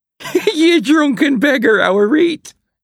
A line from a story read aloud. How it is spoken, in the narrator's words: she giggled